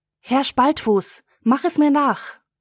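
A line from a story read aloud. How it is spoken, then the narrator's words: Girl calling out. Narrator (German): ruft das Mädchen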